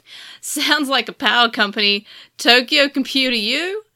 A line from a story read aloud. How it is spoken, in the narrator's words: Yulin laughed